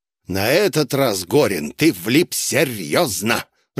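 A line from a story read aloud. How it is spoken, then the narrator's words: Growled. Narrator (Russian): рыкнул он мне напоследок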